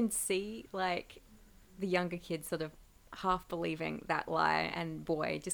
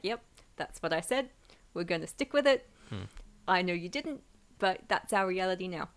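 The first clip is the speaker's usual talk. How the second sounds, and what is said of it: Near New Zealand accent. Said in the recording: “That almost sounded like a New Zealand accent there”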